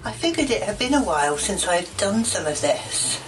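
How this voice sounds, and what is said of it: Older woman, British accent. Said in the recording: “an old British woman ... I don't like that accent. It's not sexy.”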